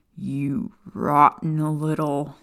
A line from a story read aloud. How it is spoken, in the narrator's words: Sirius growled